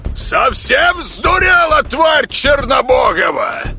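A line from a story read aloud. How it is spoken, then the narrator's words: Yelled. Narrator (Russian): заорал он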